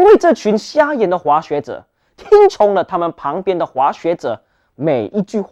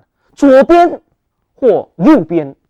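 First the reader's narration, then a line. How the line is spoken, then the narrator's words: Loud shouting. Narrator (Chinese): 看得见的滑雪者大声喊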